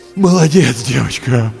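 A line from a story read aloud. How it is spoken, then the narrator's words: Strained groan. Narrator (Russian): Простонал Андрей, с трудом поднимаясь на одно колено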